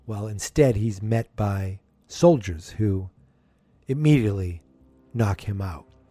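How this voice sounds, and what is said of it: Usual voice. Nothing is said of it.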